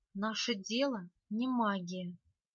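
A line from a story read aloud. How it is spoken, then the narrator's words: Near whisper. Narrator (Russian): сказал ведьмак почти шепотом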